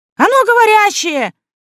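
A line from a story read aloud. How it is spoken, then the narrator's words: Shrill squeal. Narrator (Russian): взвизгнул кто-то в зале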